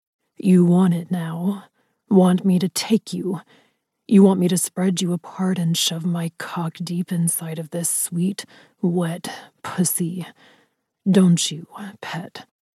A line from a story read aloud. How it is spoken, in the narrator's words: His voice was hoarse, rough with need